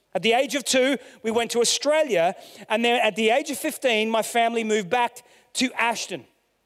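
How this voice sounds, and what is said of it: Australian-sounding English accent. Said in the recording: “my accent betrays me in that I sound like an Aussie”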